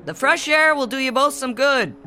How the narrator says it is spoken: Dad shouted cheerfully

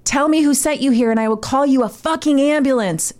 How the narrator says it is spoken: she yelled in his face

